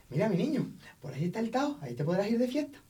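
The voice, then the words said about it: Weak imitation of an Andalusian accent. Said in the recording (Spanish): “Eso te ha sido un poco andaluz, ¿eh? ... no sé imitarlo bien, es que no se me pega, es un acento muy complicado”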